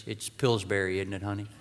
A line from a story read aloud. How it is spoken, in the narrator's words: Tom gently whispered to Grace